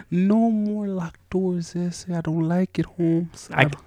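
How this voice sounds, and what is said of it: Put-on cholo accent. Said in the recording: “That's your impersonation of a what? ... You actually do look like a little cholo when you say it like that.”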